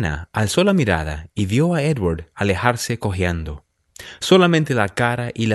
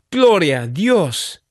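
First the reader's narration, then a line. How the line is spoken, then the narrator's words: Woman exclaiming. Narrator (Spanish): exclamó ella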